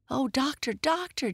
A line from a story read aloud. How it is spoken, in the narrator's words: Jesse gasped